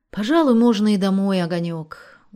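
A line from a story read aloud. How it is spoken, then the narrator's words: Tired. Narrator (Russian): устало сказала Селиванова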